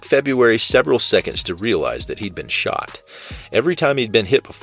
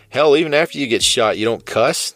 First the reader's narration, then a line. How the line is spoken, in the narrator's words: the cop laughed